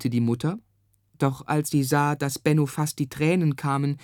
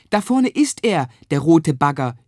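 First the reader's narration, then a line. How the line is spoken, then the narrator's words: Shouting as loud as possible. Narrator (German): schrie Benno so laut er konnte seiner Mutter zu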